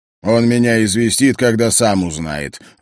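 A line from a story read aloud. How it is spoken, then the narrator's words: Grumbling. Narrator (Russian): ворчал Скрыдлов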